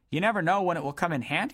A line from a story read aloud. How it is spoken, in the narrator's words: said Dodd